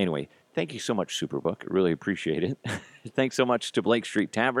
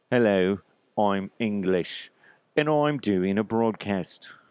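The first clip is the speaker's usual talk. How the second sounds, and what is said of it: Attempted English accent, not convincing. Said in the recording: “I can't do English... I always get screwed up on the English accent. I can do it when I hear somebody talking, but I can never, ever do it on the fly.”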